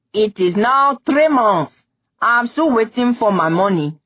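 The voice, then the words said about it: Brassy angry shouting. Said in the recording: “shouted ... the brassy shouting”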